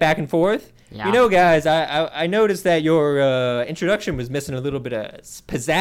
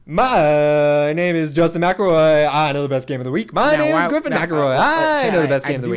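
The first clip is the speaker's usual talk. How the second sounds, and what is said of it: Lazy, enthusiastic announcer-style impression. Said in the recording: “This might be the laziest impression I have heard you do. ... it just sounds like enthusiastic”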